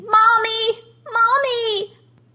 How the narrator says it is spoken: his screams

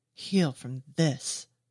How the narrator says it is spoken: she snarls

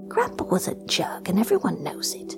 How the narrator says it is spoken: whispered back

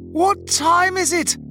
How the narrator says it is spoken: I had bellowed as I frantically beat the metal door

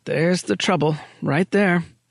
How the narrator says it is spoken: he muttered

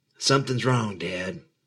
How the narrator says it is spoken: She whispered

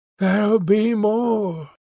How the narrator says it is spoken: she sighed

